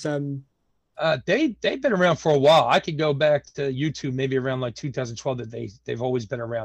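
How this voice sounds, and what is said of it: Philadelphia American accent. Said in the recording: “I'm from Philadelphia, Pennsylvania, born and raised in South Philadelphia... I hope they don't mind my accent”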